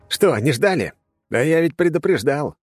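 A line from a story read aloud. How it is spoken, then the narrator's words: Smug snort. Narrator (Russian): хмыкнул я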